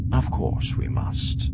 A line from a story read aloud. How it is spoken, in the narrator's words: Thrawn said soothingly